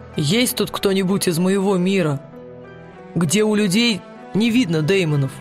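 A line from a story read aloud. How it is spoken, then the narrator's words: Plain question. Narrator (Russian): спросил Уилл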